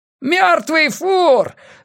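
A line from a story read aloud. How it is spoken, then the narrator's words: Teenager screaming. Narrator (Russian): завопил подросток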